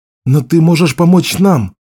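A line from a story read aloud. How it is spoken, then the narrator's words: Pleading. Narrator (Russian): взмолился Беннон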